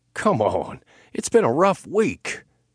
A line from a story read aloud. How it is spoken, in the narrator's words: he whined